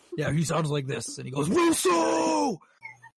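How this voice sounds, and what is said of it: Yelling imitation of another person's voice. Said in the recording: “Is that how he sounds? ... Why are you yelling? ... Because he yells a lot.”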